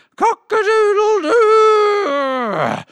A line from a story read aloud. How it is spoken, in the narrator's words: The rooster shrieked